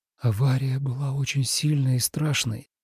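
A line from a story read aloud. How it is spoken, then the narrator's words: Quiet, breathy. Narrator (Russian): тихо на выдохе спросил Тобиас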